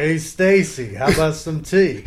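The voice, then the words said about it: Imitates a movie character's voice. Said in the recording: “Spot on Damone impersonation ... it was pretty good”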